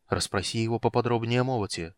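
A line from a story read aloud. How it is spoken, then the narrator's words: Whispered. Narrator (Russian): шепнул Стурм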